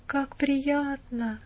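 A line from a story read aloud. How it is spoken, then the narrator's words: Even sleepier. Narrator (Russian): проговорил Колин с еще более сонно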